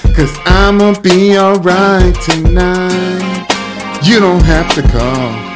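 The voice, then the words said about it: Singing in a low whispery voice. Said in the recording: “Did you mean to sing that in a low whispery voice?”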